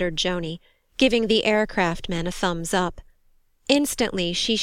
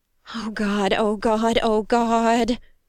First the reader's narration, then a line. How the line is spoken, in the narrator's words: Joni moaned